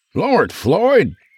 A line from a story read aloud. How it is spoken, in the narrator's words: Dandy gasped slash gagged